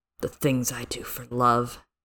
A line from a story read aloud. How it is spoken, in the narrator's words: he murmured softly